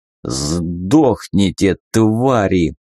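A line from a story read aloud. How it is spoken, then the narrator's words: Growling. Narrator (Russian): прорычал он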